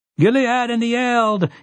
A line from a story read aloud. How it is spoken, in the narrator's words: he cried